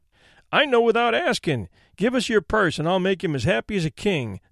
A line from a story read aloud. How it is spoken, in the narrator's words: said the boy, laughing